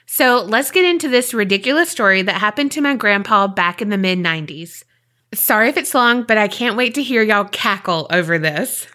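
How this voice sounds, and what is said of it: Hoarse, raspy, failing voice. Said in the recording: “my voice is kind of going a little bit. I sound like I've been smoking those cigarettes.”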